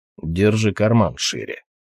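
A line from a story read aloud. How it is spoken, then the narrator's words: Grumbling. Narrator (Russian): проворчал Толгрим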